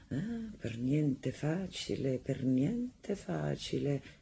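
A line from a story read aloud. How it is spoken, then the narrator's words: Murmur. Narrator (Italian): mormorava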